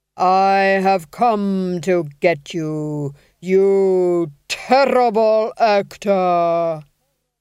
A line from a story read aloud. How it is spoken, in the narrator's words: he intoned, each syllable falling into place like a coffin lid